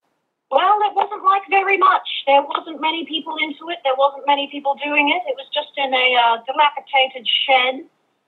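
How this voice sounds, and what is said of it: Australian accent. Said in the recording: “your wonderful Australian accent”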